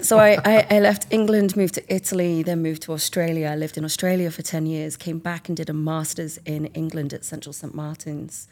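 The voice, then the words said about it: English accent. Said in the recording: “I'm from England. ... With a very dodgy accent.”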